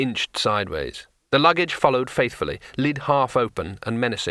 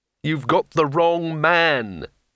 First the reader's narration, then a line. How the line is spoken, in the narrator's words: moaned